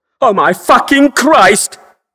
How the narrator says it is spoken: Cal shouts

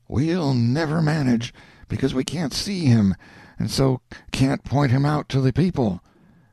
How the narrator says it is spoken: the whispers said

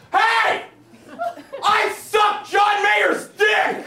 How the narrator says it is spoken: I screamed at the top of my goddamn lungs

